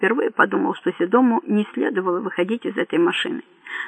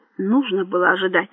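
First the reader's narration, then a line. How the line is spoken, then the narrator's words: Angry remark. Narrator (Russian): зло заметил Карим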